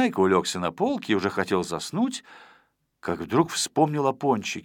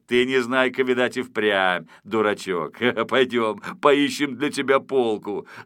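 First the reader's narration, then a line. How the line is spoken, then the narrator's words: After laughing. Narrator (Russian): закончив смеяться, сказал он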